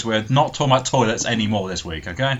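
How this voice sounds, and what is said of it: Stern teacher voice. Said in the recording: “I'm using my teacher voice ... put your teacher voice on”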